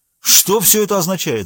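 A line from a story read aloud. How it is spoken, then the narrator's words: Two voices shouting together. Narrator (Russian): закричали отец и мать в один голос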